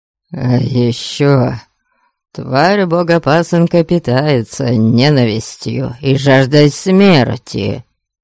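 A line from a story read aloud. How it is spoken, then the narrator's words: Hoarse with excitement. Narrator (Russian): Хриплым от волнения голосом произнес Гарольд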